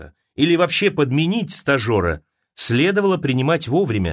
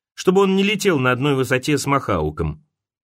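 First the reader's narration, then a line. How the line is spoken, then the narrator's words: Calm. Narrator (Russian): спокойно сказал сейчас Уоллес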